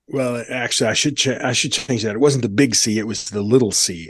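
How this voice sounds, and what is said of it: Rough, raspy smoker-like voice. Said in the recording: “you sound rough around the edges ... my voice sounds a little cranky ... I've got that cigarette smoking sound”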